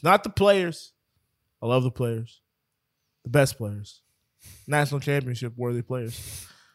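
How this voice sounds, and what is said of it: Imitates another person's speaking cadence. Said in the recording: “Did you try to do a Trump right there? ... I was doing the cadence.”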